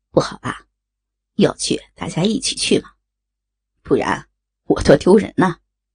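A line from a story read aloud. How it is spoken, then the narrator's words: Laughing. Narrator (Chinese): 宋思明笑着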